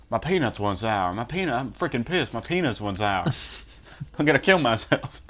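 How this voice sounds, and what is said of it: Imitates another person's voice. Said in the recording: “doing a Jimmy Carter impression”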